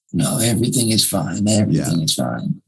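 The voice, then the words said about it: Poor Godfather mafia voice impression. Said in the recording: “That's a terrible Godfather impression.”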